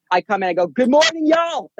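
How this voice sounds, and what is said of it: Yelling loudly. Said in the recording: “Sorry for yelling.”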